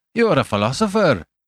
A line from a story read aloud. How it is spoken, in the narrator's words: cried